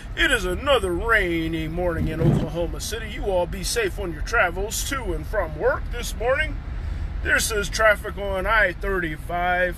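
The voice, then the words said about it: Radio announcer voice. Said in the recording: “That's like my radio voice.”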